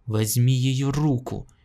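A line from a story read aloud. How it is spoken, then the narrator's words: Barked command. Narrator (Russian): рявкнул император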